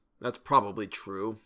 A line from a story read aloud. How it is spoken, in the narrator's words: he muttered